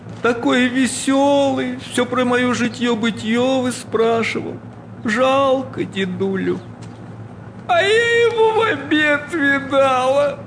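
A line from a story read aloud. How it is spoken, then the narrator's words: Wailing, sobbing. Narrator (Russian): причитая, всхлипывала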